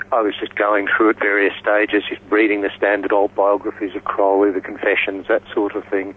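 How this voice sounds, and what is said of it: Australian accent with a twang. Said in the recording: “twang in my accent ... I am Australian”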